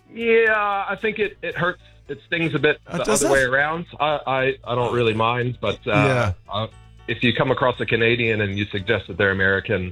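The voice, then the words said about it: Canadian-sounding North American accent. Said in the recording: “your accent, because it's very Canadian”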